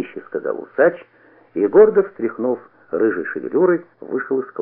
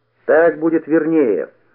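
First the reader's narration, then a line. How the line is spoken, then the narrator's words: Shout after someone. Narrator (Russian): крикнул ему вдогонку Никита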